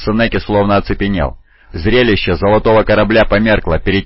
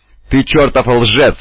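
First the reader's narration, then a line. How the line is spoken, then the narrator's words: Roared. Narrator (Russian): взревел Омегон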